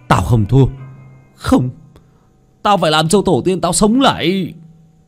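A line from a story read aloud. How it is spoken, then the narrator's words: Young man screaming. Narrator (Vietnamese): Người thanh niên tên Khoa gào lên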